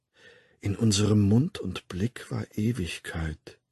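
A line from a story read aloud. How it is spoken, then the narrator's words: Murmur. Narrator (German): murmelte er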